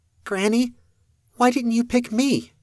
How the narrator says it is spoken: little Roxanne piped up, the youngest

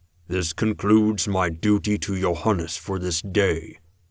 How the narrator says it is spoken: Eblis said, his voice as deep as the rumble of thunder

